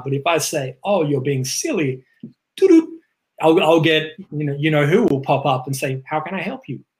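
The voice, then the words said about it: Noticeable accent. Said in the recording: “with my accent”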